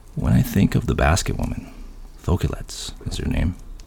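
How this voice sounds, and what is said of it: Spooky storytelling voice. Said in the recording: “scary voice”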